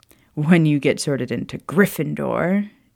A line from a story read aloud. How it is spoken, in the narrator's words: Charles added with a chuckle